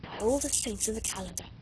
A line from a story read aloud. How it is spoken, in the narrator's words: whispered